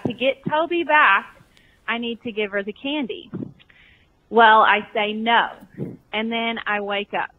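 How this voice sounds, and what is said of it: Southern US accent. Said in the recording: “I hear that Southern accent, girl. That is South Carolina, Georgia, maybe some parts of Texas, maybe Alabama.”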